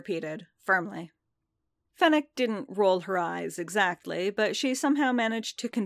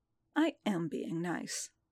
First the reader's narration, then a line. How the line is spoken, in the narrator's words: Fennec muttered